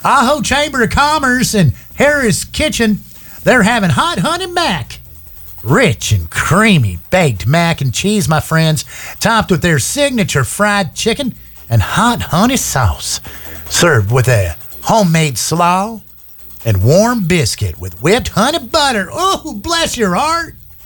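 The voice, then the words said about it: Put-on Southern accent. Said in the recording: “I want to do it all in the Southern accent, okay? I'm going to do this one here in the Southern accent”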